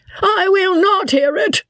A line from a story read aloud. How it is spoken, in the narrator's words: squeaked out Joss at the top of his voice